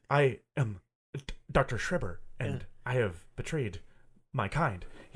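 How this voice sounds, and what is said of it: Dr. Schreber's odd accent, weird pauses. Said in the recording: “Is he talking in his weird voice? ... I could not peg down the whole movie what kind of accent. ... He's got this like weird, like, it's not really a stutter. He just puts weird pauses.”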